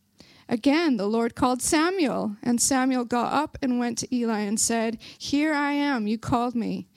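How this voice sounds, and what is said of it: Belfast accent. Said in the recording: “my Belfast accent is trying, it's trying to come through here. I'm trying to rein it in.”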